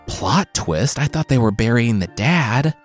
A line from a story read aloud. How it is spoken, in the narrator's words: the king whispered to no one in particular